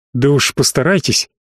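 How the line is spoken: Contemptuous through teeth. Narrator (Russian): пренебрежительно процедил

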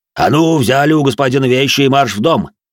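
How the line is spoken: Barking command. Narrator (Russian): рявкнул на них дворецкий

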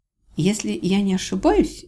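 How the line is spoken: Uncertain. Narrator (Russian): неуверенно начала я

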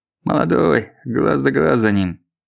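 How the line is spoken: Grumbling. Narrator (Russian): проворчал Евсеич

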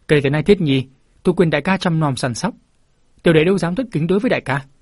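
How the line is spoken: Laughing loudly. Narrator (Vietnamese): Đồng Thúc cũng cười lớn hơn nói

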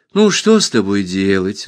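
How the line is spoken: Sighing. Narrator (Russian): вздохнула Алиса

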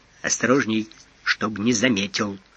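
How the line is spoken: Quiet. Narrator (Russian): тихо инспектору

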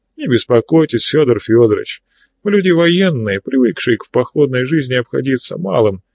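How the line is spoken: Plain. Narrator (Russian): ответил я

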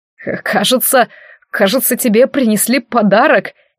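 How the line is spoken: Barely speaking through laughter. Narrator (Russian): еле проговорил Алистар сквозь смех

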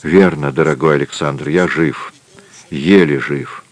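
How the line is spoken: Weak mumble. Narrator (Russian): пробормотал де Вильрож слабым голосом

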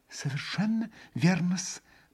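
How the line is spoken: Faltering mutter. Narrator (Russian): пробормотал уже присекшимся голосом Смердяков, гнусно улыбаясь

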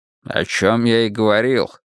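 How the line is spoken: Grumbling. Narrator (Russian): проворчал Буллин

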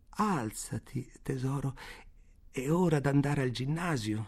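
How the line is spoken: Sorrowful tone. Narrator (Italian): dice in tono addolorato

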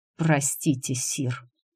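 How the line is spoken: Through gritted teeth. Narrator (Russian): Сквозь зубы процедил Роне

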